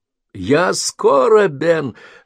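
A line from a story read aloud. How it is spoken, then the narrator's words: Joyful squeal. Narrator (Russian): радостно взвизгнул Джейсон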